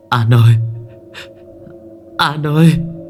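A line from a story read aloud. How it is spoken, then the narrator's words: Stammering call. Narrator (Vietnamese): Nó ngồi vật tựa lưng vào tủ mà lắp bắp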